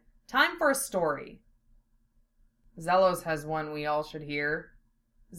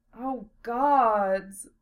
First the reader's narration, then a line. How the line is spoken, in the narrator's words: Philia sighed loudly